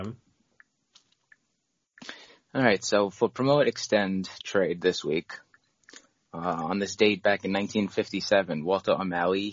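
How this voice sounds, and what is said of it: Rough, strained voice. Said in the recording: “My voice is kind of screwed up”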